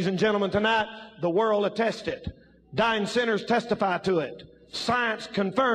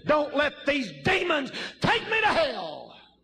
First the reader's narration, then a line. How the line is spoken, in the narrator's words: when they're dying, screaming